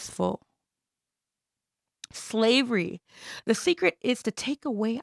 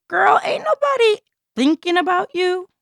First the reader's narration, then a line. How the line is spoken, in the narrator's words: she yelled